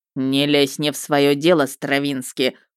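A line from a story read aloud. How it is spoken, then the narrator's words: Growled, looming over. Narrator (Russian): прорычал он, нависая надо мной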